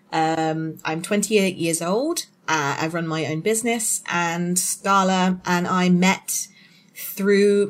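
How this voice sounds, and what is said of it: British English accent. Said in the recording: “Amber and I have completely different accents ... I am from Hampshire in the United Kingdom”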